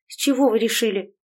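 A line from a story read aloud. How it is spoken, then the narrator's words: Surly mutter. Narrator (Russian): неприветливо буркнула Тоня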